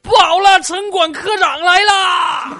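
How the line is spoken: Shouting while running. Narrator (Chinese): 一边跑一边喊

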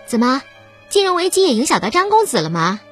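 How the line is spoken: Half-joking question. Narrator (Chinese): 他半开玩笑的问张红

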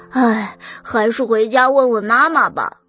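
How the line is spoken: Sighing. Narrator (Chinese): 小马叹了口气，说

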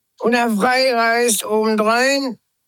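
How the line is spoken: Priest shouting. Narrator (German): schrie der Priester Strobyklus

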